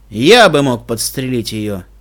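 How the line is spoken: Grumbling. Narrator (Russian): проворчал Стилхуфс

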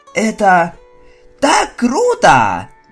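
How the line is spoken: Joyful squeal. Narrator (Russian): Провизжал я радостно

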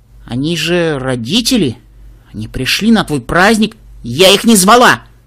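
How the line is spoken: Sharp reply. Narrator (Russian): резко ответил Лоудстар

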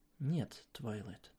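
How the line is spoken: Plain. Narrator (Russian): сказала я

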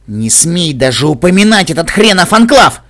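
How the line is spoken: Barking shout. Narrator (Russian): рявкнул Грифина

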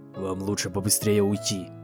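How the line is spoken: Doctor speaking quietly. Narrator (Russian): тихонько произнес доктор Хуфс

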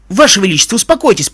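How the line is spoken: Hasty exclamation. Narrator (Russian): поспешно воскликнул Джек

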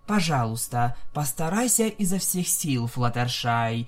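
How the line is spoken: Calm. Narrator (Russian): спокойно сказала принцесса Луна

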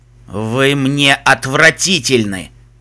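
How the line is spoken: Hissed through clenched teeth. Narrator (Russian): Выделяя каждое слово сквозь зубы, процедил ночной пегас

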